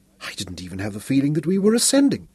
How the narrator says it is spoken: whispered

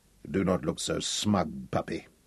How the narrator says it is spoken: he grunted at Hal

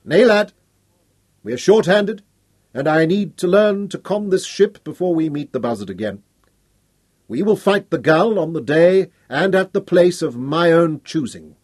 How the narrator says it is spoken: Hal told them grimly

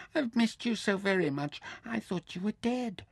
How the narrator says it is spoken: squealed

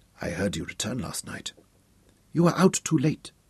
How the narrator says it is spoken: she whispered

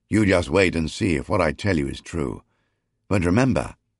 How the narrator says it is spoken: sternly

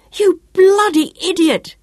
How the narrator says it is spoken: yelled in fury

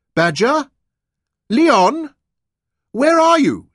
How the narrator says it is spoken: cried

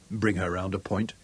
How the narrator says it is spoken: told quietly

